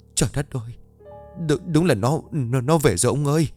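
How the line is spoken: Stammering, in throat. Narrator (Vietnamese): Bà ta ấp úng nói trong cổ họng

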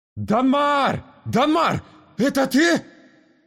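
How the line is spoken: Hoarse straining yell. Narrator (Russian): Завопил он во тьму, до хрипа напрягая голосовые связки

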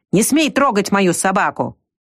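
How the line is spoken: Barked. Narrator (Russian): подоспевший Колька рявкнул

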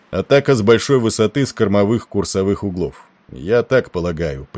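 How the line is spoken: Gloomy. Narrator (Russian): прибавил он мрачно

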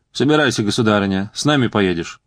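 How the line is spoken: Dry, curt. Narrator (Russian): сухо промолвил Шигона

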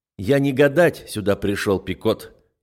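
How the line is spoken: Curt metallic tone. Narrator (Russian): отрезаю металлическим тоном

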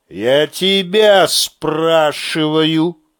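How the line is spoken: Menacing voice. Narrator (Russian): совсем нехорошим голосом сказал Шурец

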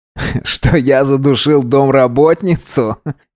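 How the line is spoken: Forced laugh. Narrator (Russian): неестественно рассмеялся Керим

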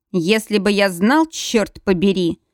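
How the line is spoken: Growl. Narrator (Russian): прорычал Макс

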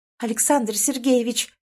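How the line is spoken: Trembling anxious moan. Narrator (Russian): дребезжащим от волнения голосом простонала я

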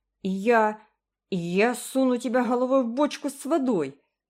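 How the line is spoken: Furious yelling. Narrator (Russian): завопила разъяренный Джеральд

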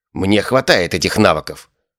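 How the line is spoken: Angry killer shouting. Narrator (Russian): зло выкрикнул убийца

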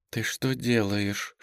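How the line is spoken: Whispered question. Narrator (Russian): шепотом спросила Настя

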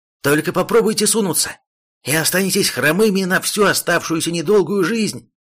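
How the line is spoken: Loud snapping retort. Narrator (Russian): Громко огрызнулся егерь

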